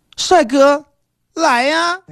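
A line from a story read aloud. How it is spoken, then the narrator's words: Woman calling out. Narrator (Chinese): 一个美女的叫声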